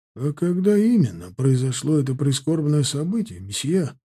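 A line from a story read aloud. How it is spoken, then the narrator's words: Calm question. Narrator (Russian): спокойно спросил он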